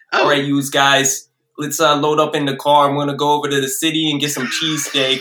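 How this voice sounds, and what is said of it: Put-on New Jersey accent. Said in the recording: “give me your best New Jersey accent”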